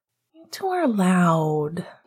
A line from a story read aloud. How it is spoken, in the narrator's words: Jules grumbled sleepily